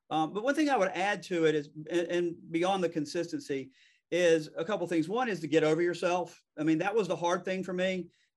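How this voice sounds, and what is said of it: Fast-talking Southern American accent. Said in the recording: “I talk fast ... I'm from the South ... this is a Southern accent, but it's a Southern accent.”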